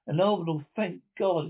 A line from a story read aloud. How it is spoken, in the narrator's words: exclaimed his lips